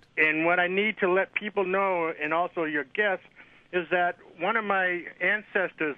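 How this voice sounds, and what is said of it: Slight accent. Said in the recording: “I hear a bit of the accent.”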